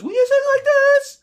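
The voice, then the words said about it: High falsetto voice. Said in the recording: “sing falsetto songs... falsetto is”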